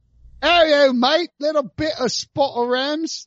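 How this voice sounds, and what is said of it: Put-on London accent. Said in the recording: “I'm not going to do a London accent.”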